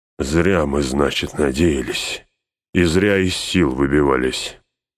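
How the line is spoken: Grating through teeth. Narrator (Russian): сквозь зубы проскрежетал Гимли

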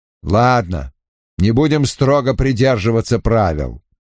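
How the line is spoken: Stern tone. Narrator (Russian): суровым тоном произнес Бен Дайкс

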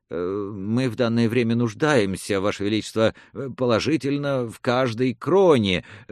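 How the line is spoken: Flustered babbling. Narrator (Russian): растерянно залепетал казначей

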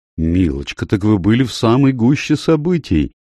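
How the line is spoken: Envious exclamation. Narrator (Russian): с завистью воскликнула леди Темплин

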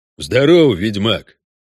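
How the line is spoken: Deep bass voice. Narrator (Russian): пробасил один из них

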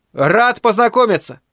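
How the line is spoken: Shouted upward. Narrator (Russian): крикнул он вверх

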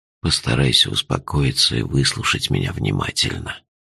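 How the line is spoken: Gentle. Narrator (Russian): мягко сказал Джуфин

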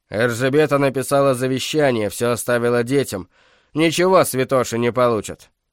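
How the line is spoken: Said angrily. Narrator (Russian): сердито проговорил Дьорть

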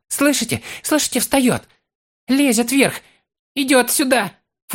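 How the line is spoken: Almost shrieking. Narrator (Russian): Фолка почти взвизгнул

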